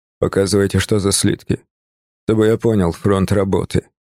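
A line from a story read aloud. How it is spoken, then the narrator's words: Plain. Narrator (Russian): сказал он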